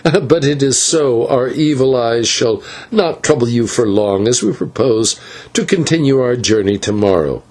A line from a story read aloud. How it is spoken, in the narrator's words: answered the señor with a laugh